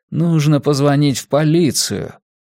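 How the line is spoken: Mutter. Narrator (Russian): Рейдер пробормотал

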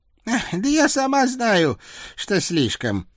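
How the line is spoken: Exhaling, old woman. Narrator (Russian): Бабка выдохнула

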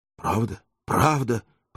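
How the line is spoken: Several voices mumbling. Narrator (Russian): пробормотало несколько голосов

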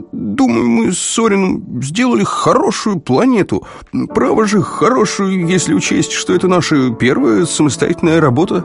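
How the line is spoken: Stammering. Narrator (Russian): запинаясь, начал Бруксайд

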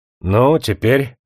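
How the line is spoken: Said somewhat solemnly. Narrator (Russian): сказал он несколько торжественно

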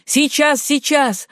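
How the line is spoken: Shouting. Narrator (Russian): крикнул Ратклифф

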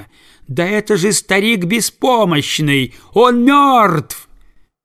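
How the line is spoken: Sharp piercing shout. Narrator (Russian): она закричала резко и пронзительно

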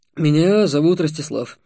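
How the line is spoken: Hoarse reply. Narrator (Russian): хрипло отозвался он

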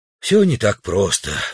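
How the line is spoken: Sigh. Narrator (Russian): вздохнул президент

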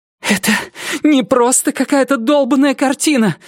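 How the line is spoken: Shouting. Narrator (Russian): закричала Рози

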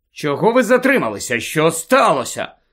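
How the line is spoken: Angry questioning. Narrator (Ukrainian): сердито почав розпитувати Люпин у Тонкс

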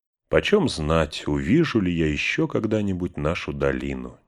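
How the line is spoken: Quiet. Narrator (Russian): негромко проговорил он

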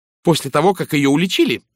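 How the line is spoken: Sharp retort. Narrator (Russian): резко парировала Джин

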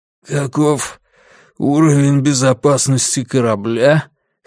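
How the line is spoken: Hoarse question. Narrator (Russian): хрипло спросил Грюнвальд

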